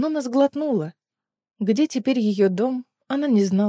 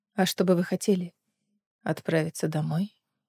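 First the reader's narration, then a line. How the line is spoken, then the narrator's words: Quiet answer. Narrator (Russian): Тихо ответила Гленис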